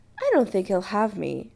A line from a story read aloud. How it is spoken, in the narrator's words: Adam said cheerfully